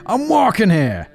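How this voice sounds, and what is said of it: Badly done Brooklyn accent. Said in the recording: “a thick Brooklyn accent ... He was a terrible accent, I apologize.”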